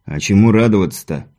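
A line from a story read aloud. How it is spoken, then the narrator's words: Grumble, thirty-year-old man. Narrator (Russian): буркнул один из солдат мужчина лет 30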